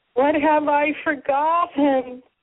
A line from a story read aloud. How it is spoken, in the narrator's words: she sighed with ecstatic relief